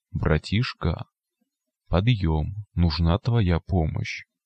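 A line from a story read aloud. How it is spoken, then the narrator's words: Quiet mutant head. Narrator (Russian): Голова мутанта тихонько произнесла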